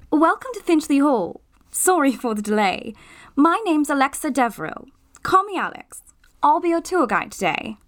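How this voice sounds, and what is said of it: Posh British boarding-school accent. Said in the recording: “her accent, posh boarding school”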